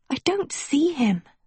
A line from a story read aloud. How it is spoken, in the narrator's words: she whispered